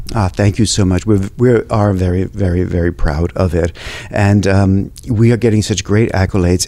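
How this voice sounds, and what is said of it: New York accent. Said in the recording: “perhaps it's my accent, that I'm from New York”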